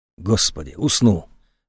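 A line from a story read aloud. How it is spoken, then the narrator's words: Relieved exhale. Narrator (Russian): облегченно выдохнула Екатерина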